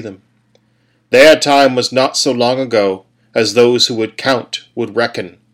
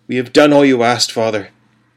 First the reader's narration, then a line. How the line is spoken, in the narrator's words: said, his voice faltering